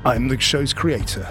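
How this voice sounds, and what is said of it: Dramatic movie-trailer announcer voice. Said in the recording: “You've gone all trailer voice.”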